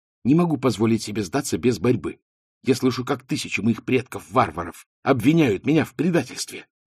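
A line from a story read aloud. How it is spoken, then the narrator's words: Fervent whisper. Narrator (Russian): С жаром прошептала она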